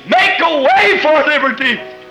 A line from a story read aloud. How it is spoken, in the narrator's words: He paid the sacrifice and screamed